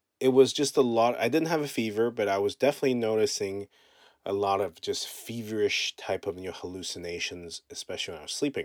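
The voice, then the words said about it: Cracked, congested sick voice. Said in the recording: “as you can tell, my voice is cracked. Still got a bit of congestion.”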